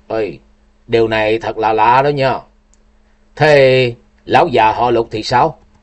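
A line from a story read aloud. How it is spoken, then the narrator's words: Muttering. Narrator (Vietnamese): Ngô Thiên Hằng lẩm bẩm rồi nói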